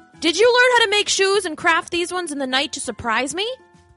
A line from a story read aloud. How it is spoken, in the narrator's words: George called out to his wife